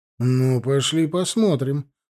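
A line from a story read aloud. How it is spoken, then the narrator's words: Grumbling. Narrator (Russian): проворчал Жорин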